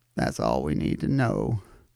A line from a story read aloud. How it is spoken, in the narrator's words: the Covington clone mumbled